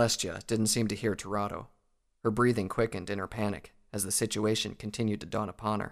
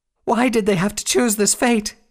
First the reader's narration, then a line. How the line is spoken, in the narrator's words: wailed